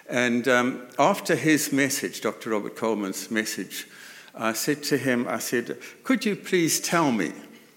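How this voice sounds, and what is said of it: Zimbabwean English accent. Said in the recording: “Zimbabwe, from which the country I come from, note the accent.”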